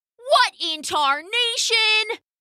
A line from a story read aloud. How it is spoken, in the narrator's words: they screamed